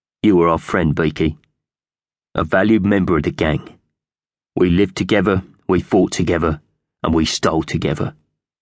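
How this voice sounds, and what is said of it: Solemn character voice. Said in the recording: “addressed the dead bird in a solemn voice”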